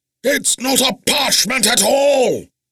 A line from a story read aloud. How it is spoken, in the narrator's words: The bone-blackened wizard roared, as his frustration erupted